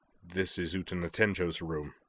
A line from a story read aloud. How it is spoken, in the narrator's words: said the young man flatly